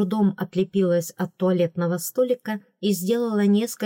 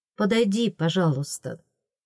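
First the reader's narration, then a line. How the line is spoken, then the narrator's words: Gentle call. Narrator (Russian): он ласково позвал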